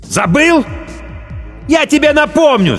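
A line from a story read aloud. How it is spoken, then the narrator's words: Shouted. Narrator (Russian): закричал Ким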